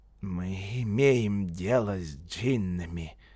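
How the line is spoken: Whisper. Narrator (Russian): прошептал Бенни Синг

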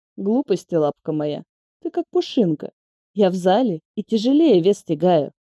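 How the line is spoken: Calm. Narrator (Russian): спокойно ответил он

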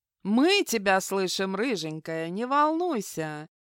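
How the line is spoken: Laughing. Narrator (Russian): хохотнула соседка по камере

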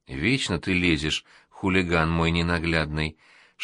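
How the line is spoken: Whisper. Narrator (Russian): шепнула

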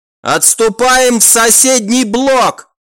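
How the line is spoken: Commander shouting. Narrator (Russian): прокричал один из командиров охраны

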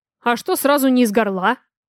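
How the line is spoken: Angry question. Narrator (Russian): зло спрашиваю

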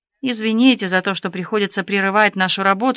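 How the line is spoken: Plain. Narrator (Russian): сказала она

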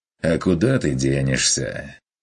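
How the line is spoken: Wry grunt. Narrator (Russian): хмыкнул охотник

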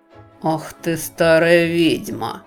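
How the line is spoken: Through gritted teeth. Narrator (Russian): процедил доктор Куимпер

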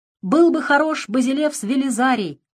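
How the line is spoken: Shout from behind crowd. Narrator (Russian): выкрикнул кто-то из-за спин

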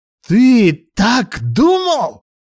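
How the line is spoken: Shrieking. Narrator (Russian): завизжала она

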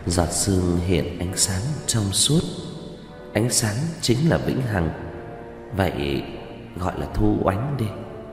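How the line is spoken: Prompt speech. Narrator (Vietnamese): lập tức nói

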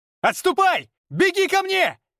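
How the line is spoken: Silent mental shout. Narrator (Russian): Мысленно кричал

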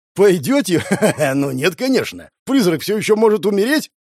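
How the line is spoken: Chuckling. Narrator (Russian): Хохотнул

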